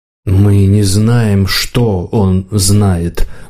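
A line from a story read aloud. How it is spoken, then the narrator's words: Muffled objection. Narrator (Russian): глухо возразил Слизняк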